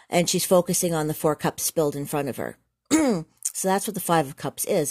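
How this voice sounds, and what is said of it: Losing voice, strained. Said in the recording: “I've lost my voice.”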